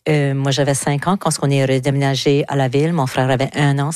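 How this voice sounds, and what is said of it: Southeast New Brunswick French accent. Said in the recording (French): “c'est le seul moment de ma vie où est-ce que j'ai pas habité le sud-est du Nouveau-Brunswick... Comme que tout le monde peut le constater par mon accent”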